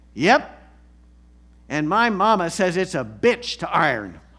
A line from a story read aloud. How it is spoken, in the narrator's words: The little girl responds loudly into the mic